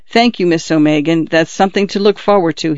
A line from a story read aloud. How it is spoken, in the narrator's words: he said